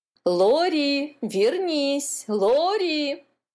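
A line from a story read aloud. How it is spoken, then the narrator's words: Mother shouting. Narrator (Russian): кричала мама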